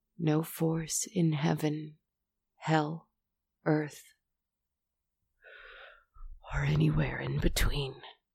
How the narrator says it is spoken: whispered in a raspy, hoarse voice

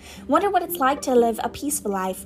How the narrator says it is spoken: Ron sighed, as evening after evening they struggled through all the extra homework they were getting

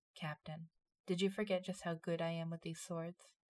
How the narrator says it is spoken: She said softly

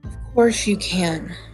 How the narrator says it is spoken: she sighed

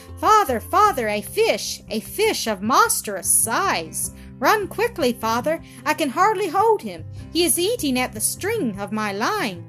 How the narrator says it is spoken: Presently I heard his voice calling out

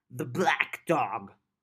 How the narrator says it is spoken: Munch grumbled

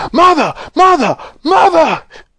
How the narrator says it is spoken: Charlie shouting

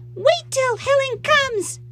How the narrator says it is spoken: she screamed

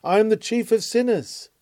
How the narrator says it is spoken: And he who thought himself blameless cried out

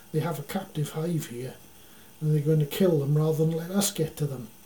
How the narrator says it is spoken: Citrus exclaimed

